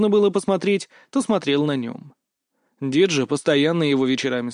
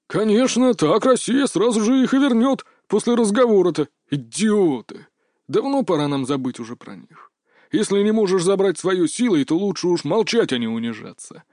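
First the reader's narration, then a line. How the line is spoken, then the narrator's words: Old man grumbling. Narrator (Russian): проворчал дед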